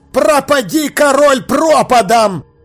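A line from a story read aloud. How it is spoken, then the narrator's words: Shouting. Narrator (Russian): крикнул душистый горошек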